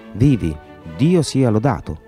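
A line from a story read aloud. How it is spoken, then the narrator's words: Exclaimed. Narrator (Italian): aveva esclamato Mr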